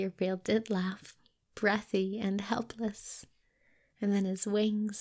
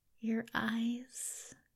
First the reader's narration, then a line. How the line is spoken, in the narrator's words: Aziraphale said softly